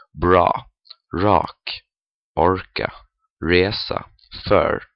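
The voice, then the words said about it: Swedish words with thick American R. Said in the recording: “this actually sounds better than a thick American R, like this ... This sounds really bad”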